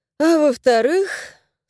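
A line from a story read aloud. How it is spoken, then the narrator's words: Sighing question. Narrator (Russian): спросила, в очередной раз вздохнув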